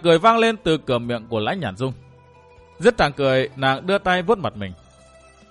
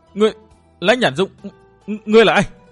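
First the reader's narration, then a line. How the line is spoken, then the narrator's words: Shocked scream. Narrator (Vietnamese): Chàng biến sắc, thét lên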